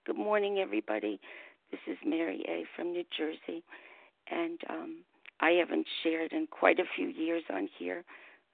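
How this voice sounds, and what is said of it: Hoarse voice. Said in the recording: “My voice is kind of hoarse.”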